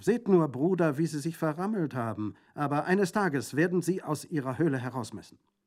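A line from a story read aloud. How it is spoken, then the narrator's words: Calling out. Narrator (German): rief sie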